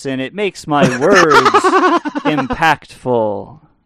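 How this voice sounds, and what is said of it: Exaggerated poetry-reading voice. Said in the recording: “I am doing the poetry voice”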